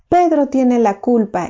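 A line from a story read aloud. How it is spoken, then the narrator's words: Exclaiming. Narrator (Spanish): exclamó Timoteo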